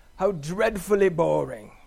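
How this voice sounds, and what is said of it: Put-on British accent. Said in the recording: “he's British, maybe you know, so it kind of sounded like this ... that's my best British accent”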